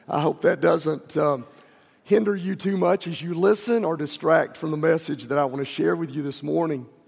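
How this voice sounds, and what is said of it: Hoarse, raspy voice. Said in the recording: “My voice is a little bit hoarse this morning. I'm a little bit raspy.”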